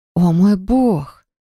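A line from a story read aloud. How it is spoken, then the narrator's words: Astonished breathy exclamation. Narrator (Russian): выдохнула изумленно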